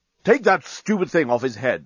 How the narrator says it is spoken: snapped Bolfast

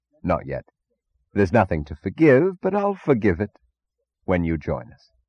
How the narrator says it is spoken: chuckled gaily, remembering, and answered

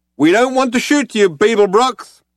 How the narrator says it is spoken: shouted the figure

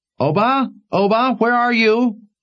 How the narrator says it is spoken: his mother hollering for him

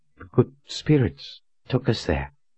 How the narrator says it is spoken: she stammered

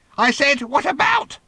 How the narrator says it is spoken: she almost screeched

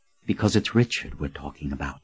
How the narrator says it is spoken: said in a near whisper

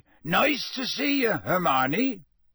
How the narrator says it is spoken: Hagrid said loudly

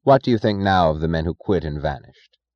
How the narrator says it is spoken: he asked

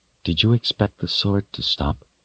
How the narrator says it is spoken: she asked in a low voice

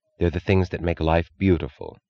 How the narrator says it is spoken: said Mrs

